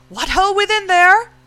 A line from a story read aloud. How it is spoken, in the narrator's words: his voice came plainly